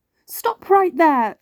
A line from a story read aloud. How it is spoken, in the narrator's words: a mean troll yelled